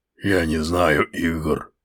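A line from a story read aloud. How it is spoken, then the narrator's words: Grumpy mutter. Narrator (Russian): буркнул Грорк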